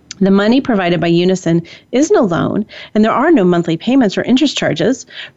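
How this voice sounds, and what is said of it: Sarcastic, disdainful reading voice. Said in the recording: “hear the sarcasm in my voice? ... Can you hear the seething disdain?”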